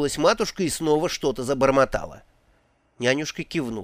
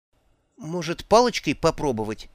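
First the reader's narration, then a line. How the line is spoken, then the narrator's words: Uncertain suggestion. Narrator (Russian): неуверенно предложила Магрот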